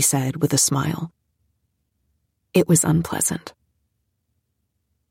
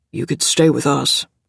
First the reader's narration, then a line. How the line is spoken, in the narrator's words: Dad said in a gruff voice